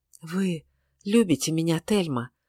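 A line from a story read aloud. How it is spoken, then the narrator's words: Feverish whisper. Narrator (Russian): прошептал он словно в горячечном бреду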